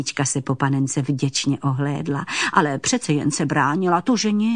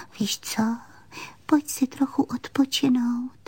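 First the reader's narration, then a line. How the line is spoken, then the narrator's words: Whisper. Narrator (Czech): Panenka pošeptala jí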